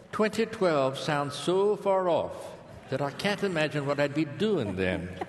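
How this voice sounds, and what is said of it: Sarah Palin accent impression. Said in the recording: “perfect accent ... Notice I left the G off ... that was Sarah Palin”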